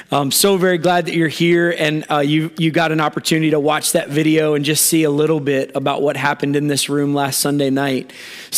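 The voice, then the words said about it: Strained, worn-out hoarse voice. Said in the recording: “I want to apologize right up front for my voice. I'm not sick. I just over-cheered all week ... my voice is paying the price for it”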